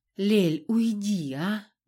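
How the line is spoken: Weary request. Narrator (Russian): устало попросила Риша

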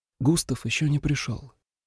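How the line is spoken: Muffled whisper. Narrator (Russian): уткнувшись лицом в шубу, шепнула

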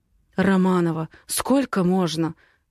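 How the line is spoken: Hoarse. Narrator (Russian): хрипит он

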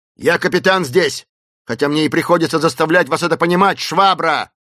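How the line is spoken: Yelling with curses. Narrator (Russian): завопил Снайпс, присоединив порцию ужасающих проклятий

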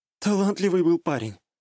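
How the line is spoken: Sigh. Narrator (Russian): вздохнула она

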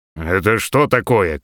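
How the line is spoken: Stern shout. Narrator (Russian): крикнул он строго

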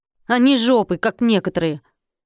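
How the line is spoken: Curt tossed remark. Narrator (Russian): Конопатый же бросил сержантам

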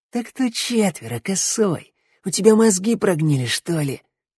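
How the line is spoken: Hoarse rasp. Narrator (Russian): прохрипел жила

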